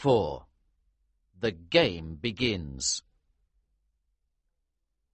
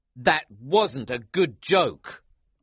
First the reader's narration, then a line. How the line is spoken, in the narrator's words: I said angrily